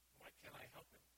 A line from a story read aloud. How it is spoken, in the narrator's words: sheepishly and quietly says